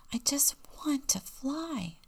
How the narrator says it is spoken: whispered

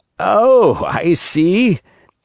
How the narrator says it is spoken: said, laughing

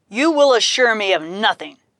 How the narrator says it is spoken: bellowed Hoplite

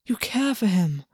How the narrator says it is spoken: Augus whispered

